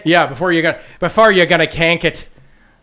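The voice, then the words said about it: Put-on Irish accent. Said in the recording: “That was my Irish accent there”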